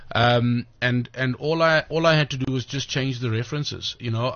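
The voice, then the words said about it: Speaker's own non-local accent. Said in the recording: “my accent is new to their palate ... I speak very quickly when I'm on stage”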